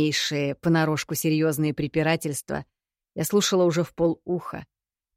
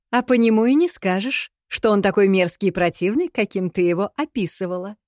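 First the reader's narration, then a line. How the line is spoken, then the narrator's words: Giggling. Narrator (Russian): хихикнула Ирна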